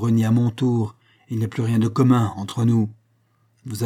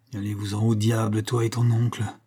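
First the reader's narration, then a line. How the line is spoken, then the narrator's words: Murmured. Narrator (French): murmurait Toineuse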